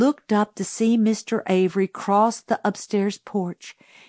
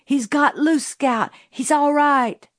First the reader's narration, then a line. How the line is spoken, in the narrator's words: Jim cried